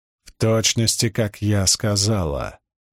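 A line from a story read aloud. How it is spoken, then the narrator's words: Growl. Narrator (Russian): прорычала Пивара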